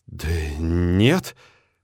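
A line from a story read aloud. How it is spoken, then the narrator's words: Confused mumble. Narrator (Russian): растерянно бормочу я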